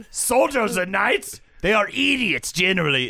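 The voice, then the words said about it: Angry put-on Polish accent. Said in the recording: “Can I get you angrier and Polisher? ... Like angry, large, pounding men? ... Is that not a good Polish accent? ... It's fine.”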